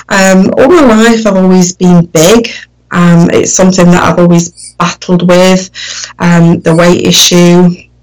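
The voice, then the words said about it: Northern English accent. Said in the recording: “my accent is very northern. So I don't speak like most people speak in London or what you'd probably think a normal sort of UK accent ... It's a little bit more common”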